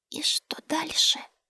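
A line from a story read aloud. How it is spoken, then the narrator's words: Whispered question. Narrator (Russian): Шепотом поинтересовалась Маланька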